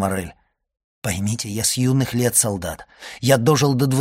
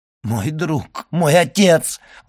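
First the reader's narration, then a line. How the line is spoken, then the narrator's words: Exclaiming. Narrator (Russian): воскликнул Моррель в выступлении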